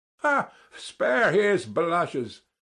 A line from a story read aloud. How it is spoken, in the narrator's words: cried Ferfitchkin, sniggering